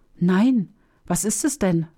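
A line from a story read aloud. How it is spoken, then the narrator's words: Fearful question. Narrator (German): fragte Hamdam ängstlich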